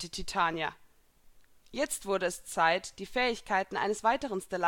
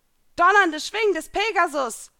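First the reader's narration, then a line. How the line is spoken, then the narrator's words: Shouting out. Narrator (German): schrie hinaus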